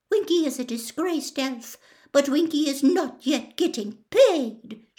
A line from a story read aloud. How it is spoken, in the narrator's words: she squeaked